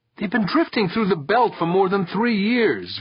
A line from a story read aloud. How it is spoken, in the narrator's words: Victor pleaded